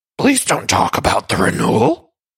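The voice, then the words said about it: Luann impression, Cookie Monster-like voice. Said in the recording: “in her Cookie Monster voice ... I can't do a good Luann impression, but that's my best shot”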